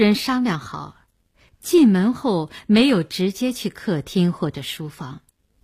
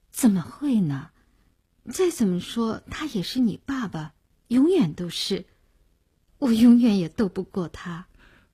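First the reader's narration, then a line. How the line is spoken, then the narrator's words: Sighing. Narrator (Chinese): 他叹了口气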